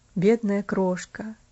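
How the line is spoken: Muttering. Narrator (Russian): пробормотал он опять

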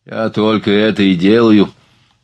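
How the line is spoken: Uneasy grumble. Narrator (Russian): пробурчал Жолеваль, стараясь унять неприятные ощущения от надвигающейся развязки

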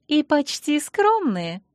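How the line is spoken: Cheered-up giggle. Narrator (Russian): хихикнула повеселевшая Ангельена

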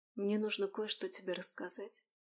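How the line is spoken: Quiet. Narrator (Russian): негромко произнесла Алисия

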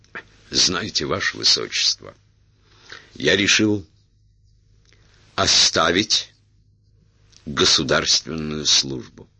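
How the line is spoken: Clear, confident voice. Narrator (Russian): сказал Эраст Петрович ясным, уверенным голосом

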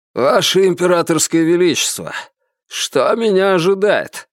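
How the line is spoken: Muffled question from under sack. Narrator (Russian): вопрос пленника, который глухо прозвучал из-под мешка

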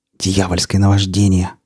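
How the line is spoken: Hoarse whispered exclamation. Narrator (Russian): хриплым шепотом воскликнул Рамир

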